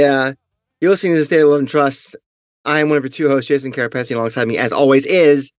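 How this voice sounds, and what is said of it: Usual voice. Nothing is said of it.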